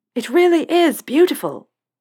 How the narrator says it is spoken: Harry yelled over the engine

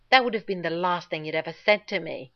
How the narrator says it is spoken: John snarled, without realizing he was going to, right into Rodney's face

